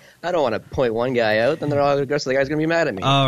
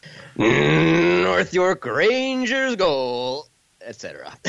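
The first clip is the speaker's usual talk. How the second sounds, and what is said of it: Hockey arena announcer voice. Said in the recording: “your announcer voice”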